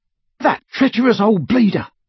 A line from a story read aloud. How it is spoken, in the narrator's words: Ron panted